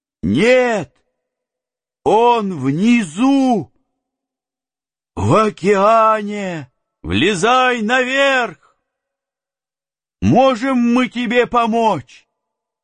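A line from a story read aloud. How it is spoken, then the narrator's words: Shout. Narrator (Russian): Я крикнул ему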